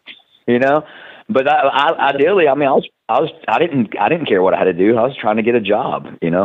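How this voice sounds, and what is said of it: Southern American accent. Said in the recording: “they frown upon the my my accent ... southern like accent southern”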